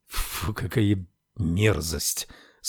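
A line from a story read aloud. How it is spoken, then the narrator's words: Disgusted exhale. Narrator (Russian): с отвращением выдохнул Рекс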